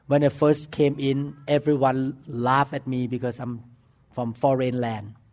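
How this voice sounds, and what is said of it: Strong foreign accent. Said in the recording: “not only my accent was bad”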